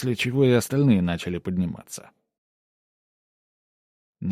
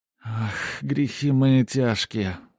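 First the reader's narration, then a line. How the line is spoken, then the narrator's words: Sighing. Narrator (Russian): вздохнула брюнетка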